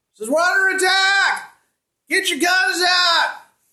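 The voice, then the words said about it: Yelling character line. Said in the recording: “he's yelling”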